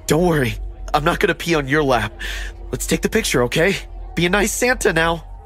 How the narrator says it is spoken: The man chuckled creepily and said

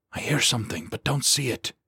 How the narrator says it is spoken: he hissed

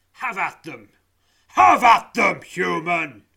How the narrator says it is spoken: bellows the giant, his deep, thundering voice reverberating through you

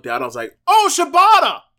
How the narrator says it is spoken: I yelled it out loud

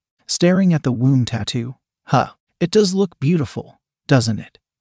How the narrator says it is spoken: the woman said with a small laugh

